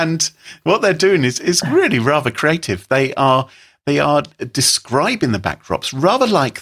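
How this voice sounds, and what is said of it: Usual voice. Nothing is said of it.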